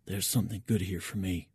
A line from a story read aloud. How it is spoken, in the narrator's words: I whisper in Petrov's direction